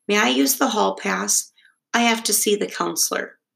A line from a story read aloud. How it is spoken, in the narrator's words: said timidly